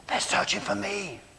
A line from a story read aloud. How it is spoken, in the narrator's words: the child said with a whispered laugh